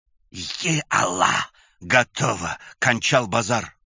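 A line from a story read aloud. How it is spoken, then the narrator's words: Pale horrified whisper. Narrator (Russian): Побледневшими губами прошептал Галиулин, считая прапорщика и солдат погибшими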